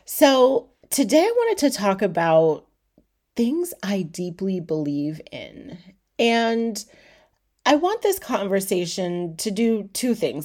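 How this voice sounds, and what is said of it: Slightly stuffy, congested voice. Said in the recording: “I sound a little stuffy ... you hear me sniffling”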